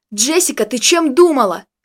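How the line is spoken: Uncontrolled yell. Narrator (Russian): не сдержавшись, заорал я

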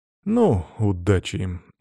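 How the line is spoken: Snorting. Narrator (Russian): хмыкнул я

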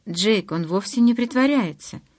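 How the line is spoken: Quiet. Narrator (Russian): тихо сказала я

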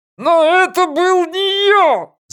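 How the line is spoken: Yelling. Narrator (Russian): заорал Франк

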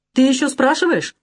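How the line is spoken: Exclamation. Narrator (Russian): воскликнул я

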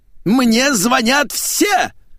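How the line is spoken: Mother's ringing shout. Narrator (Russian): звенящим голосом закричала маменька

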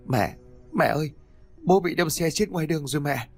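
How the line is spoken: Sobbing, choked boy. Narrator (Vietnamese): Mạnh bật khóc nức nở nói trong tiếng nức nghẹn ngào

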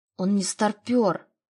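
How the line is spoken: Angry shout. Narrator (Russian): зло выкрикнула

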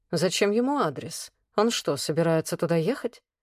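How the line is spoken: Detached questioning. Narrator (Russian): Отстраненно поинтересовался Влад, задумчиво

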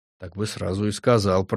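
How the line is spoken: Grumbling. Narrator (Russian): проворчала она

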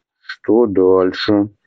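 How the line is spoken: Tired question. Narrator (Russian): устало спросил Аубран

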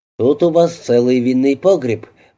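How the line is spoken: Cold. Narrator (Russian): произнес он холодно

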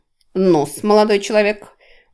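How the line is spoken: Monster grumbling. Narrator (Russian): буркнуло чудовище

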